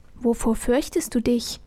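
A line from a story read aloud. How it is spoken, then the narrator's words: Soft voice from darkness. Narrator (German): ertönte leise aus der Dunkelheit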